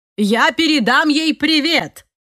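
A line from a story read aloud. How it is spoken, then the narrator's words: Shouted after someone. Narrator (Russian): крикнул Жорж нам вслед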